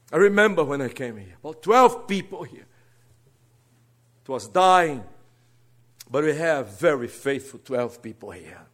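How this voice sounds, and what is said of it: Brazilian Portuguese accent in English. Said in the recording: “Don't worry my accent. I'm a Brazilian.”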